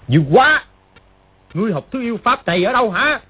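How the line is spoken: Frightened, angry shout. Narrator (Vietnamese): Triệu Chí Kính ... vừa kinh hãi vừa tức giận gọi to

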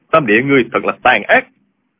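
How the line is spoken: Shouting. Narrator (Vietnamese): Diêu Thanh Tuyền quát lên

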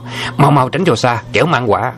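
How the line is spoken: Frightened loud shout. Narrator (Vietnamese): Trùng Dương trông thấy cả sợ quát to

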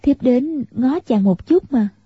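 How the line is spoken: Smiling. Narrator (Vietnamese): Tiểu Long Nữ mỉm cười, nói

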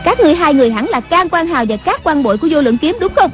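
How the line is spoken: Loud shout. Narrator (Vietnamese): Người đứng giữa quát lớn

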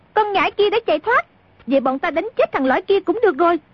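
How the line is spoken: Shouted. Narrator (Vietnamese): A Tử bèn la lên

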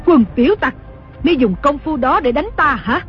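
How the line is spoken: Furious scolding shout. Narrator (Vietnamese): Đồng mổ cả giận quát mắng

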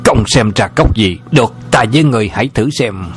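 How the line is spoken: Furious shout. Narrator (Vietnamese): Lão Lùng cả giận quát to

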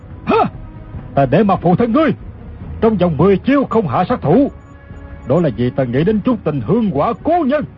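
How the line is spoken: Shouted. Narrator (Vietnamese): Cừu Ma Trí quát lên

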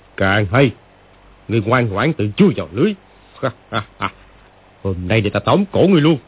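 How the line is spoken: Mocking sneer. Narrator (Vietnamese): lão chuyển giận thành vui, cười khẩy mà nói

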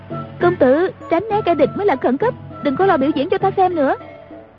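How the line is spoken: Crying out. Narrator (Vietnamese): Ngữ Yên kêu lên

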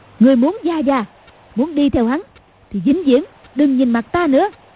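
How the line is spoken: Shout. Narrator (Vietnamese): Cầu Thiên Xích quát lên

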